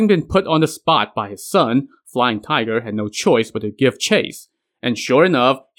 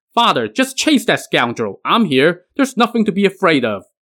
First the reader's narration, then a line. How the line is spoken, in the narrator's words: Huang Tianhua now shouted